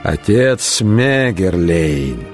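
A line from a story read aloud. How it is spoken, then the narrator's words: Drawled. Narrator (Russian): протянул он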